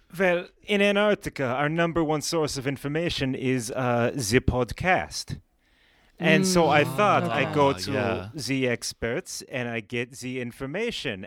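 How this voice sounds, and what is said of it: Shifting comedic made-up foreign accent. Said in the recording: “my accent slips further and further into other Antarctican dialects”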